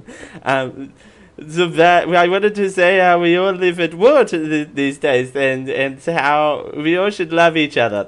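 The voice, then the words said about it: Imitates another person's voice. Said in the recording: “bad Tommy Wiseau impression”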